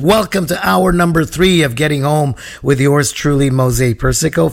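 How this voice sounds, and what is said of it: Scratchy voice from a cold. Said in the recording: “my voice sounds a little scratchy. I'm fighting a head cold ... my voice sounds terrible”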